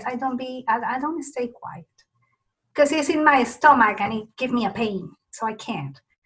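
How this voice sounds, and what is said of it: Spanish-influenced accent. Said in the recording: “with my accent, I don't want that to go away ... since I keep speaking Spanish at home”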